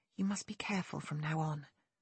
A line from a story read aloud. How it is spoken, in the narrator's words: she murmured